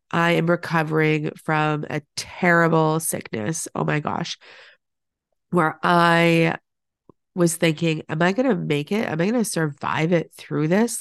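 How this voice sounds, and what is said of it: Growly, sick-sounding voice. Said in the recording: “you can probably tell in my voice that I sound a little growly, not like myself.”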